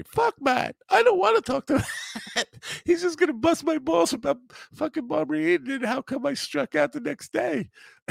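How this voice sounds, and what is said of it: Imitates another person's voice. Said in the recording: “That's not how Peter Bales talks, by the way. That's a terrible impersonation of Peter Bales.”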